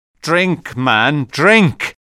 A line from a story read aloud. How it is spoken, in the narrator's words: cried Nicholas impatiently